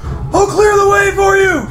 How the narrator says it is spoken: yells to Brandis and says

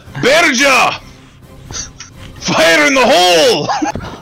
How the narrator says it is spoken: Do your Baron yells out

